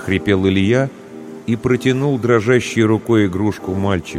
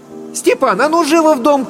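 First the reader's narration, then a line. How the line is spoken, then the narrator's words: Distant shout. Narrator (Russian): крикнула Татьяна из сеней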